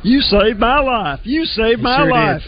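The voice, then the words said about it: Gomer Pyle impression. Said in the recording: “did a Gomer Pyle impersonation”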